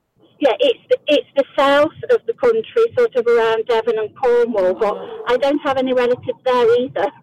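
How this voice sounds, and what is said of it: English East Midlands accent. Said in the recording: “I love your accent ... I'm from Derby in the Midlands, East Midlands.”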